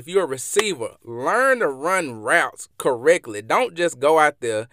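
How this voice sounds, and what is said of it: Mississippi Southern accent. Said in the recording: “I'm from Mississippi, and y'all probably can hear this in my accent”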